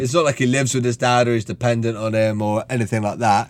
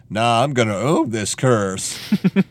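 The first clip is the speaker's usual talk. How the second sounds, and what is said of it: Imitated Texan accent. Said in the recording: “he does not do a particularly brilliant accent with his Texan voice in this”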